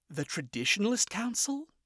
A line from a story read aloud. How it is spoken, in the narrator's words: said quietly